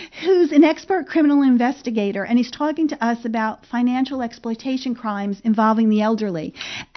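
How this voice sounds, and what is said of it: New Jersey accent. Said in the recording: “That's my New Jersey accent.”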